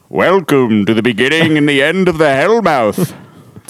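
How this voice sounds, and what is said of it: Imitates theme song narrator voice. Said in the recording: “My impression of the theme song. ... That's pretty good. ... the welcome was great.”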